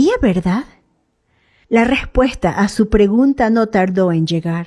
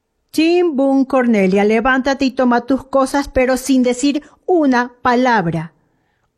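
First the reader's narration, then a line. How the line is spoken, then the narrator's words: Firm commanding voice. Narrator (Spanish): ordenó con voz firme la directora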